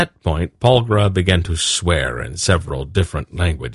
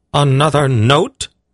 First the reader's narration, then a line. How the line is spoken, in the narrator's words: she half-shrieked